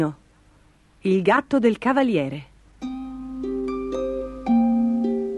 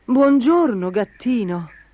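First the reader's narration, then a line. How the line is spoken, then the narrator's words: Knight exclaiming. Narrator (Italian): esclamò il cavaliere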